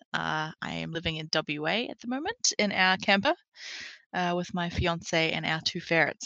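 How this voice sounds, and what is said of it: New Zealand accent. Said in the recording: “As you can probably tell, I do have a Kiwi accent.”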